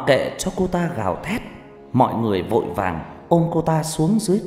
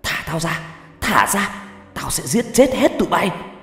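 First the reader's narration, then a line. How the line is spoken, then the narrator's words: Screaming. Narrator (Vietnamese): cô ta gào thét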